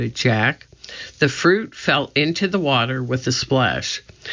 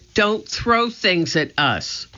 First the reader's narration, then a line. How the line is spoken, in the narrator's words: shouted Annie